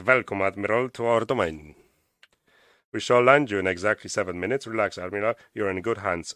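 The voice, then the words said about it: Weak German accent, sounds Irish. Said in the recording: “I don't know if I have to read it in the German accent ... This is the most Irish German I've ever heard in my life.”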